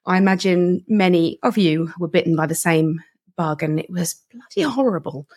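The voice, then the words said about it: Ill-sounding voice. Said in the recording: “You may hear in my voice that I'm still suffering from my Jane Austen-esque consumption type illness”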